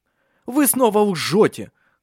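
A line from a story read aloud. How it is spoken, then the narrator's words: Shouted. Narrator (Russian): выкрикнул он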